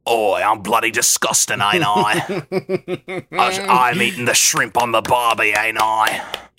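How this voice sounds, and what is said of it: Australian-accented imitation of another person. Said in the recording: “my Rebel Wilson impression is that she's Australian, not British ... A perfect Rebel Wilson impression”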